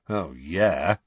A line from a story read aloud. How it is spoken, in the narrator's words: said Sirius sarcastically